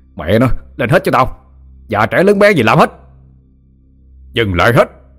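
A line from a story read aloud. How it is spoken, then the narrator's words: Angry shout. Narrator (Vietnamese): Thằng Thiện tức quá mà la lên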